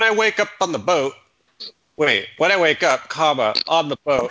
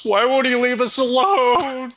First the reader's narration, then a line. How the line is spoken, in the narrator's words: The black guy sobs